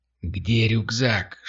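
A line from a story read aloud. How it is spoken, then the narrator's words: Whisper. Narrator (Russian): шепнул Кирилл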